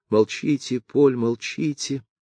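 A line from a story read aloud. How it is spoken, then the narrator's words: Frightened girl's whisper. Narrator (Russian): прошептала в испуге девушка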